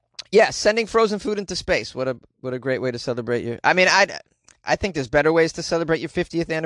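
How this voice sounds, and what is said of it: Usual voice. Nothing is said of it.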